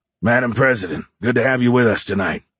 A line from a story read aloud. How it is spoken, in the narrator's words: said in his rough voice